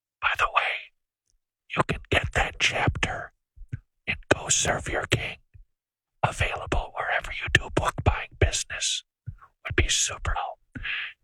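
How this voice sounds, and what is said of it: Whispering, like an aside. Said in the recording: “I'm whispering for such an extended amount of time as if I'm doing some sort of an aside”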